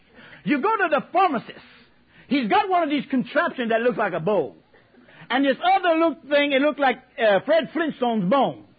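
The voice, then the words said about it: Cajun accent. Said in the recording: “my Cajun accent”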